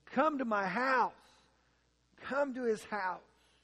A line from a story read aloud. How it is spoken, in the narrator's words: pleaded with Him